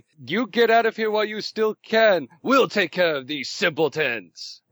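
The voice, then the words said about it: Yelling in a commanding voice. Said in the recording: “I'm yelling ... I have the voice of authority”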